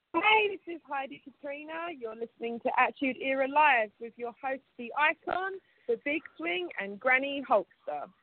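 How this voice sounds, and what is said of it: Southern British London accent. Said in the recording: “I love your accent. ... very southern British. I'm from London”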